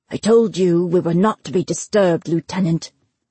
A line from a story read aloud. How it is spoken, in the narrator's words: he growled